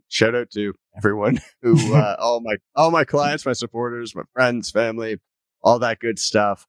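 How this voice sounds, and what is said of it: Canadian accent. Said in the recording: “Canadian accent ... You have such a strong Canadian accent.”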